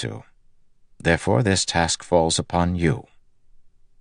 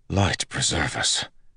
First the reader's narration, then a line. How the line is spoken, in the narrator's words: Telmanis whispered